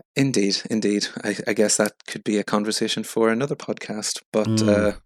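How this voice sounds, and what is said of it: Irish accent. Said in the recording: “as listeners can probably tell from your accent, you're originally from Northern Ireland? ... From the Republic. ... Just on the border.”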